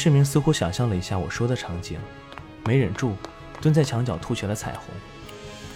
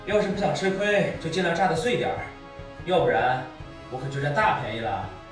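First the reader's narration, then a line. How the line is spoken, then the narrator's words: Loud shouting from outside. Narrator (Chinese): 我站在门外大声嚷道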